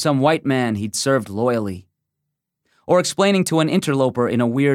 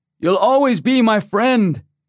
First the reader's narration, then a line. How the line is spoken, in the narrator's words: a native character yelling